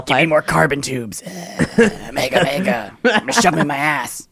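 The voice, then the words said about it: Raspy robotic smoker voice. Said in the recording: “sounds like he's been smoking for 50 years as a robot ... that was my impression”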